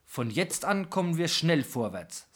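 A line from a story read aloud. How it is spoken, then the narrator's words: Plain. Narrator (German): sagte Piak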